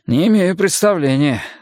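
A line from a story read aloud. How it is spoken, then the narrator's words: Sighed. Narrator (Russian): вздохнул Майкл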